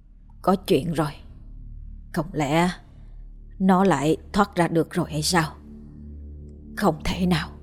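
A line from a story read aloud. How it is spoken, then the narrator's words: Worried muttering. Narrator (Vietnamese): Bác Đồng lẩm bẩm, bác lẩm bẩm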